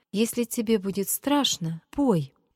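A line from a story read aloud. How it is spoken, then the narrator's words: Timid. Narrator (Russian): Петя начал робко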